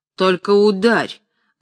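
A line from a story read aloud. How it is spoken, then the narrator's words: Menacing, measured. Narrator (Russian): грозно и мерно произнес Куприяныч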